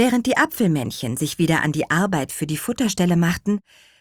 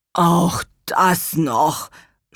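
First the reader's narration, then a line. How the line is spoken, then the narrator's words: Groan. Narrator (German): stöhnte Gurkenhut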